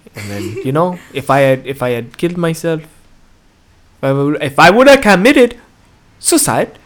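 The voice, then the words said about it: Accidental Japanese-sounding accent. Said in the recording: “why do I sound Japanese now?”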